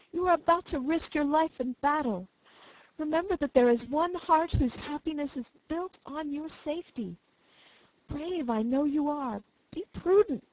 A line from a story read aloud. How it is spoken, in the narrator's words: added the sobbing girl